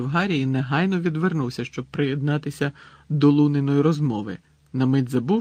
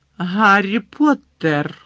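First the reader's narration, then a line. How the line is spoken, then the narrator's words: Deep trembling voice. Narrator (Ukrainian): сказала професорка Трелоні глибоким тремтячим голосом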